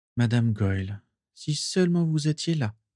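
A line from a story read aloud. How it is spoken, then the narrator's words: Murmured to himself. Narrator (French): murmura-t-il pour lui-même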